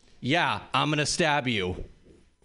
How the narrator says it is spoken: my roommate responds sarcastically

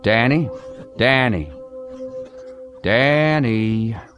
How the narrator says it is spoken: He raised his voice, but not too much, so as not to wake Trish or the kids

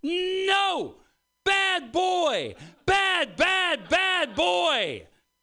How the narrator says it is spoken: all of a sudden she starts yelling

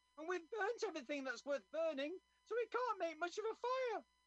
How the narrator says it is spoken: said Frank, his voice getting higher

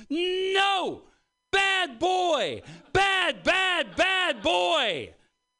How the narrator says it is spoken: she sees her dog in the living room doing something she doesn't like, and she starts yelling

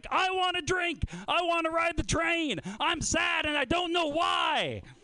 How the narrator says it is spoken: screams like

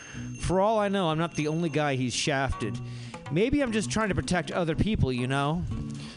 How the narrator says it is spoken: sighed and the tears began to roll down his cheeks

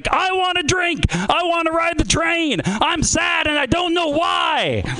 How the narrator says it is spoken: he screams

